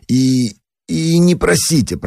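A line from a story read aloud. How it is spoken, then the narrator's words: Frightened. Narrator (Russian): продолжал он испуганно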